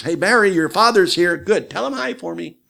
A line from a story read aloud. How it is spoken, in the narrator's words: my mother would holler downstairs